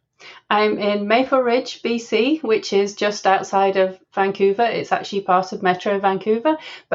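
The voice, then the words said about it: English accent from Leeds. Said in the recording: “as you can tell from my accent, I grew up in England. So I'm originally from Leeds in the UK.”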